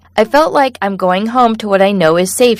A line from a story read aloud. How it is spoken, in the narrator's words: said